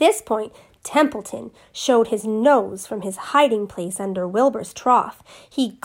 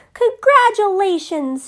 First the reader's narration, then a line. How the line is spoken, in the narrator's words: shouted Wilbur